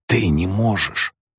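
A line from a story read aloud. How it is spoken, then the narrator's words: Delirious whisper. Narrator (Russian): зашептал он словно в бреду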